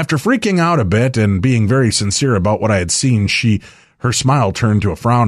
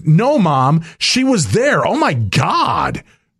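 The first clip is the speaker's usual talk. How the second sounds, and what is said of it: Imitated teenage girl voice. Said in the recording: “was that a very good teenage girl voice? ... That was very good. ... That's uncanny.”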